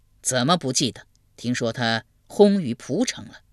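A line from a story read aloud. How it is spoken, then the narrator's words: Long sigh. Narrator (Chinese): 文公长叹一声道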